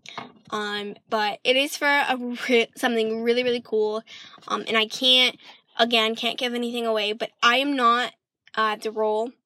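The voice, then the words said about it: Speaker slips into a British accent. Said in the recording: “I'm doing a weird accent now. Sorry, my British kicked in.”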